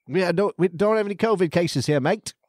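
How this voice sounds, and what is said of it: Imitated Australian accent. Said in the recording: “Australia's accent. The COVID can't keep up with the sexiness of their accent.”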